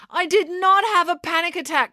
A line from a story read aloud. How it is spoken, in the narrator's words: cried April